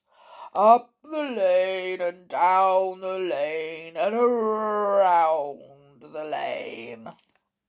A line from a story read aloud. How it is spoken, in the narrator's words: answered in a nice growly voice